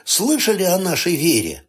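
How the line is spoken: Cheerful. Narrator (Russian): весело спросил патологоанатом

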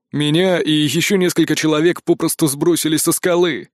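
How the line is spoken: Gloomy explanation. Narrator (Russian): Все тем же мрачным голосом пояснил Древень

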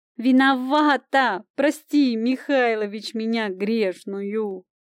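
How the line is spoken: Sobbing. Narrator (Russian): зарыдала

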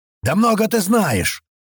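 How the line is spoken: Shouted out. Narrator (Russian): выкрикнул кто-то

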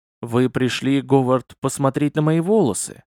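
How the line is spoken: Calm. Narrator (Russian): Спокойно попивая кофе, спросила женщина

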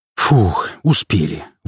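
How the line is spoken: Breathless exhale. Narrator (Russian): выдохнул я

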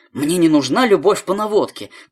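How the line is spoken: Shouted after someone. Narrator (Russian): Настя прокричала ему вслед

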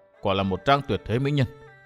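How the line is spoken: Soft inner murmur. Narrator (Vietnamese): chàng khẽ nhủ thầm

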